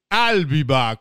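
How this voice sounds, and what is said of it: Arnold Schwarzenegger impression. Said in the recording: “doing a great impression of Schwarzenegger”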